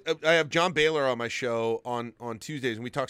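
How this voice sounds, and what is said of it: Usual voice. Nothing is said of it.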